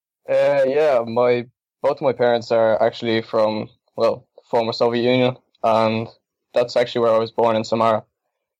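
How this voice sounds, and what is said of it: Irish accent. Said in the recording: “your Irish accent ... I picked up the accent”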